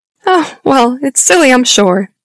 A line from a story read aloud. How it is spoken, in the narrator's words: the woman said with a small laugh